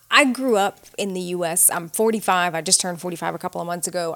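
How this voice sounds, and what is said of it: Slight Southern American twang. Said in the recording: “I speak English with a bit of a Southern twang”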